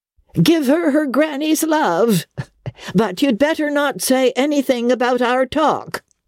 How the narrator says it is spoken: The old lady snapped out with her mocking cackle, she called out after him

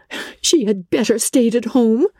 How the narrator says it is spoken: cried Elizabeth

